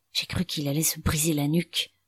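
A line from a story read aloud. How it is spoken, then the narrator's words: Whispered through clenched teeth. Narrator (French): souffla Ido entre ses dents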